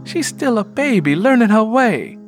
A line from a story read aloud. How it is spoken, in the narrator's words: Lennie Gray said as tenderly as she could